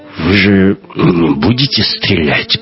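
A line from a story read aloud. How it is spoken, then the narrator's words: Nervous muttering. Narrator (Russian): пробормотал Кох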